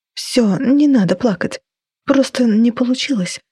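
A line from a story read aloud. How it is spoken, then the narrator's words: Mother's whisper. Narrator (Russian): шептала мама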